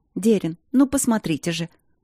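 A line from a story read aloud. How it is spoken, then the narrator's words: Excited babbling woman. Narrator (Russian): взволнованно пролепетала женщина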